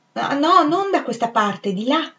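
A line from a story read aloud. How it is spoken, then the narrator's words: Exclaimed. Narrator (Italian): esclamò Rezzi, affrettandosi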